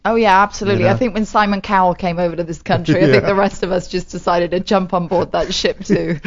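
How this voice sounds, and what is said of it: British Welsh woman's accent. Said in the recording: “It sounds so formal and proper ... I'm actually from Wales ... Welsh accent's very different”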